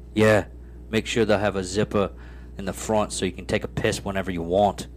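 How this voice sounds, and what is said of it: Half-hearted put-on British accent. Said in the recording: “A half-assed British accent. That's pretty good.”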